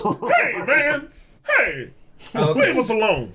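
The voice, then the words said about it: Put-on scary intimidating voice. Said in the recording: “I got to get my scary voice on”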